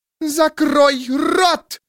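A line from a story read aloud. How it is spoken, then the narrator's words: Shrill shriek. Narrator (Russian): взвизгнула она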